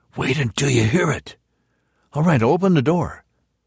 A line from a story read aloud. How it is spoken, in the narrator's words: repeated in a whisper